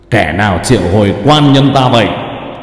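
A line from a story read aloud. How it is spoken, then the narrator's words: Booming thunderous voice. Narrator (Vietnamese): Thân xác của Cao Biển, nói giọng oang oang như sấm nổ vậy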